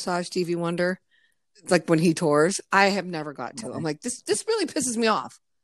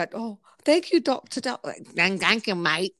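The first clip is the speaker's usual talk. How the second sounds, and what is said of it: Poor attempt at Australian accent. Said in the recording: “I can't do the Australian accent.”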